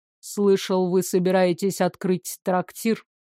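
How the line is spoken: Cold remark. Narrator (Russian): холодно добавил

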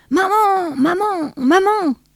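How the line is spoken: Shout. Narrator (French): cria Johnny

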